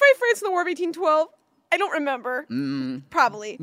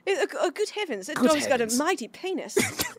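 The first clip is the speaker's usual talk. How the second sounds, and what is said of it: Very bad put-on British accent. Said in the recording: “That's the worst British.”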